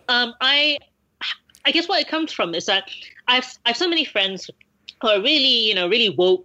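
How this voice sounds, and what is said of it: Speaks with a noticeable accent. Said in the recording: “it sounds really stupid in my accent”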